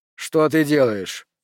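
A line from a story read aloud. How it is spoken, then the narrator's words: Sharp question. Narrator (Russian): резко спросил Томас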